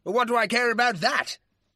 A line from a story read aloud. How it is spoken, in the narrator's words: the baronet said angrily